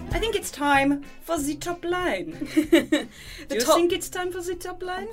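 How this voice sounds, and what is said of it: Put-on German or French accent. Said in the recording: “Why are you doing a German accent? ... I thought it was trying to be French.”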